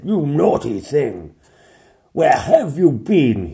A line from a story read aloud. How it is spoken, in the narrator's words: he thundered